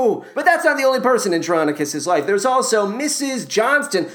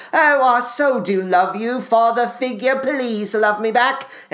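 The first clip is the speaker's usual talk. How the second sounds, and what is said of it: Put-on British accent. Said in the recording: “a British accent.”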